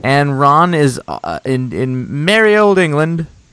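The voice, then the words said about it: Very bad put-on English accent. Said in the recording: “That was the worst accent I've ever done... That was terrible.”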